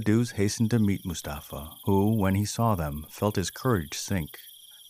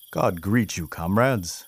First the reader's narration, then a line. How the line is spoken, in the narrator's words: he exclaimed